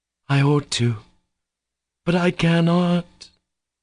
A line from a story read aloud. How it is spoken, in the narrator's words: Katya moaned